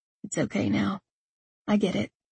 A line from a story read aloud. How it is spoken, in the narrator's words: he whispered